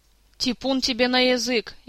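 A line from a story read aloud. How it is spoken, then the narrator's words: Frightened interruption. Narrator (Russian): испуганно перебила ее Эльвира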